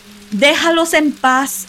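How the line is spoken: Shouting through door. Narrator (Spanish): gritó a través de la puerta

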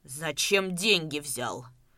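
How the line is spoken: Sharp, angry question. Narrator (Russian): резко и зло спросил Давыдов

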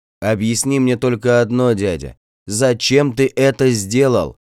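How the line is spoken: Loud shout into ear. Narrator (Russian): В ухо погромче крикнул я

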